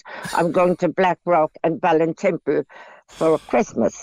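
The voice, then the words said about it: Put-on posh accent. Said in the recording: “I'll have to put on my posh accent.”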